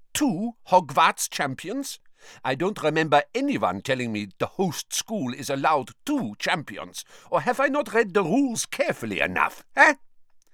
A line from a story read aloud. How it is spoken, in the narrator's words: gave a short and nasty laugh